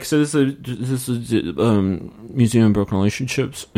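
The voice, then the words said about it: Imitates another person's voice. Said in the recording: “it's a good Nick impression.”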